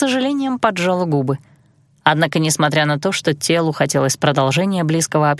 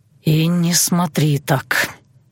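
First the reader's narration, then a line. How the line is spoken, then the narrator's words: Loud sigh. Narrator (Russian): вновь шумно вздохнул Айландир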